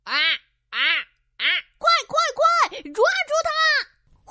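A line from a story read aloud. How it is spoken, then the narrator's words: Excited shout. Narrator (Chinese): 小乌鸦情不自禁的喊了起来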